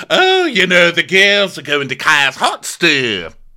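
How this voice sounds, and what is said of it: Mock imitation of Dorit's accent. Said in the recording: “Which accent was that? ... It's one syllable. A heat store.”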